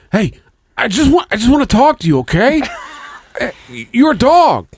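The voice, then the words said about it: Impression in a Boston accent. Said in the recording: “impression yeah. of ... Mark Wahlberg. ... He's always talking in a Boston accent.”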